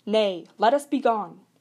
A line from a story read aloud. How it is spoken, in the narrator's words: a great shout went up